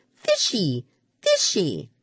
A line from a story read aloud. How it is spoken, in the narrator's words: she squealed